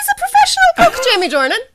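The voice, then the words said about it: Voice goes suddenly high-pitched. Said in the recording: “You got really high there for a second... Yeah, I did get a bit high.”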